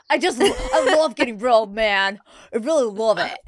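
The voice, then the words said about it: American frat boy voice. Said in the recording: “frat boyed that... It's like an American... American lacrosse player. It was like a Duke lacrosse player.”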